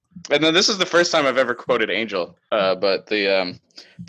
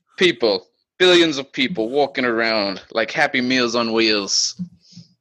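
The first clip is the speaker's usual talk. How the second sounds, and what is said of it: Imitates a TV character's accent. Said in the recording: “Do the Spike accent ... That's the Spike line ... Spike can fake an accent”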